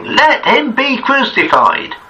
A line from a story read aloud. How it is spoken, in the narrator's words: they cried out exceedingly, saying